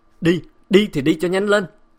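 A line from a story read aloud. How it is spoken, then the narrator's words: Loud shout in ear. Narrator (Vietnamese): Tiếng Bá Nam hét to bên tai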